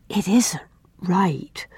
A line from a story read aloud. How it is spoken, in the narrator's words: whispered Una